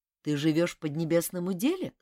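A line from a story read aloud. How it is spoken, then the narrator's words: Plain. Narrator (Russian): спросил Ким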